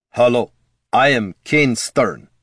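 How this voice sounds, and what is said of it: Growling thick foreign accent. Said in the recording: “he growled in a thick northern Ruskin accent.”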